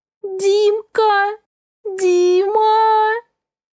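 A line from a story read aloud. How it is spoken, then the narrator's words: Loud sobbing. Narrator (Russian): зарыдала в голос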